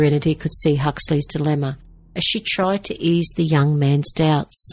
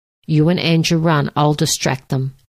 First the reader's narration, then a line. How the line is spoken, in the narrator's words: he said